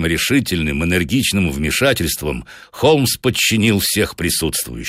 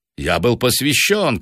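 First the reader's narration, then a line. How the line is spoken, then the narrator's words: Old man shouting. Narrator (Russian): крикнул старый негодяй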